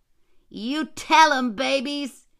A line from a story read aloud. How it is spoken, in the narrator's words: shouted down